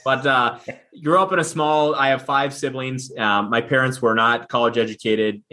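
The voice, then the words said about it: Upper Midwest Minnesota accent. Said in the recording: “You probably hear it in my accent... they ask if I'm from Wisconsin or Minnesota”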